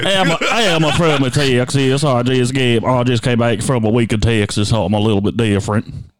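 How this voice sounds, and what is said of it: Exaggerated Southern US accent. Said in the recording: “Can you keep doing the southern accent? ... It's bad. ... The accent.”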